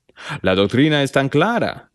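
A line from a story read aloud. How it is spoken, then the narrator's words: Plain. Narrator (Spanish): dijo Hiram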